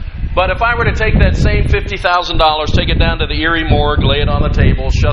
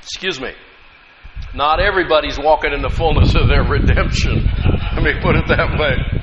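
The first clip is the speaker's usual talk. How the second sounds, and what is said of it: Choked-up, emotional voice. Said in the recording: “Got choked up there.”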